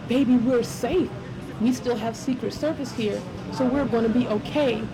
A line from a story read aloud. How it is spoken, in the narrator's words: I had to calmly say